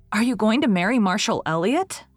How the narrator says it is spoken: exclaimed Anne, recovering her power of speech under the second shock

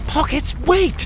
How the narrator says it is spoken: Coglin cried

